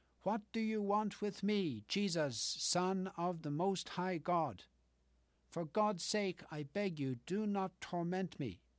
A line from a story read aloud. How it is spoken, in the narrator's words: cried with a loud voice